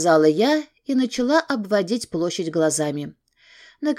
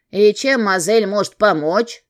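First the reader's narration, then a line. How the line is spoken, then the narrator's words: Suspicious deep voice. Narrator (Russian): подозрительно посмотрела на меня и пробасила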